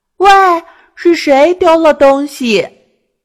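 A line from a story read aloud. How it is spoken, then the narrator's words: Hurried loud call. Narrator (Chinese): 琪琪就赶紧大声喊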